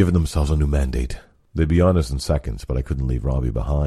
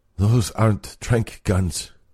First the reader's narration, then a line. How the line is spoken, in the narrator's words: he groaned